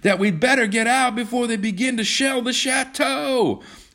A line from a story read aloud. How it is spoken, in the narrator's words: John shouted